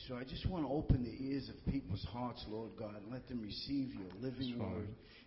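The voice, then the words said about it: Speaks with a noticeable accent. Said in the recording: “I love that accent.”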